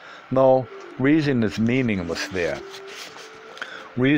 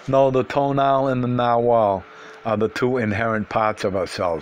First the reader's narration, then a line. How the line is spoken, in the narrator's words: he said dryly